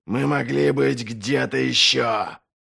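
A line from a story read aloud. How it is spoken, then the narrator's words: Growled. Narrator (Russian): прорычал Доу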